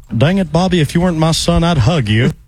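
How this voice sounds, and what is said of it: Impression of cartoon character Hank Hill. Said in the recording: “somebody doing an impression of Hank Hill. ... That's really good. It sounds just like him.”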